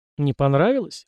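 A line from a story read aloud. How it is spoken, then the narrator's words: Smirking snort. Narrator (Russian): хмыкнул я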